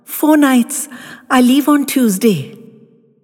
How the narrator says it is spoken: spluttered out

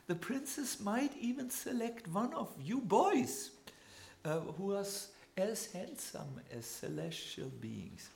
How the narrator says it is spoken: said the brahmanas, chuckling

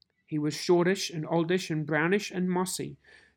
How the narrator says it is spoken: says Dr

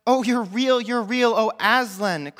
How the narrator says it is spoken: cried Lucy

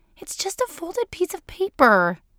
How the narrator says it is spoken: Melissa had whined

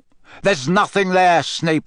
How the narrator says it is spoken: barked Moody

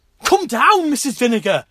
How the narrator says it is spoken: he cried

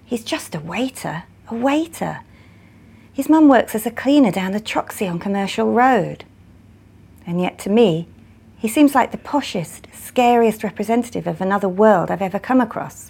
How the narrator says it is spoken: Gloria whispers

